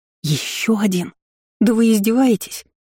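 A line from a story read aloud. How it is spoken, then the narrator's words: Near groan. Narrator (Russian): Я едва не застонала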